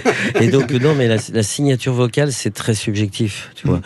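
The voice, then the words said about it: Toulouse southern French accent. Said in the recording (French): “Toulousain ... j'ai repris mon accent.”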